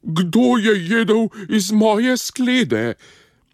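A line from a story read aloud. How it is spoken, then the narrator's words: Mother bear roaring slightly softer. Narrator (Slovenian): Mama medvedka je zarjovela samo malo tiše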